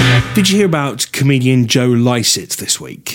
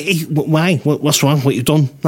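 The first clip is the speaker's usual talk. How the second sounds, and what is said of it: Unsteady put-on Scouse accent. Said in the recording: “It's wandering a bit, that Scouse accent ... I'm not very good at the Scouse accent.”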